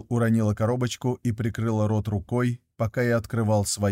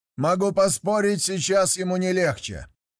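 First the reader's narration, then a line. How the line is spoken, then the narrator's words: Shouting through cupped hands. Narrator (Russian): крикнул Райланд, приложив ладони ко рту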